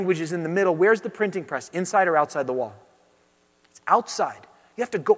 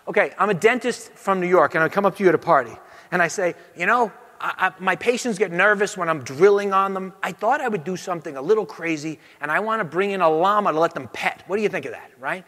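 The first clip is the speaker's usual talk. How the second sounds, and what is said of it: Bad put-on New York accent. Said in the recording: “a bad New York accent.”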